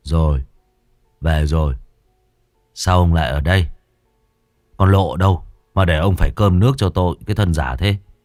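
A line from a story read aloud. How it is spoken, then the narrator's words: Drunken slurred voice. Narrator (Vietnamese): Huyên đáp lại bố bằng giọng lè nhè như đẫm hơi men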